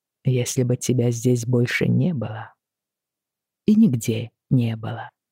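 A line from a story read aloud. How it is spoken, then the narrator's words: Very gentle. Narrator (Russian): сказал он очень мягко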